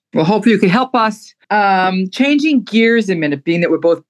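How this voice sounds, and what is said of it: Brooklyn accent. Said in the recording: “I'm proud of my Brooklyn accent.”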